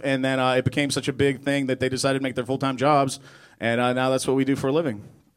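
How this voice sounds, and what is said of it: Polished radio announcer voice. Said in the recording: “you seriously have a radio voice going on down there”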